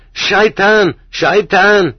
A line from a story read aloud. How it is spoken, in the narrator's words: screeches